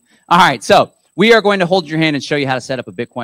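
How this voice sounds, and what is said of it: Usual voice. Nothing is said of it.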